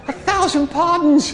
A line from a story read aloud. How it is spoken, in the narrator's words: begged one